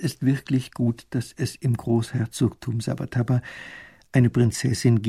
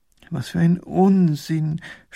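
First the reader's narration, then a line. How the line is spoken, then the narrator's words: Groaning. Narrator (German): stöhnt Professor Pfiffikus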